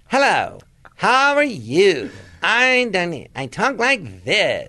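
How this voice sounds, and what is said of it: Exaggerated imitation of Jon Lovitz's voice. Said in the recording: “This is people imitating me.”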